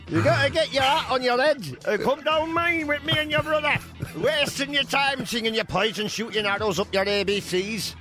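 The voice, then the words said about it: Put-on Sheffield accent. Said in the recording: “Or whatever Sheffield accent is.”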